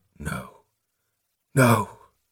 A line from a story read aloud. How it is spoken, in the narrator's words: Prothol whispered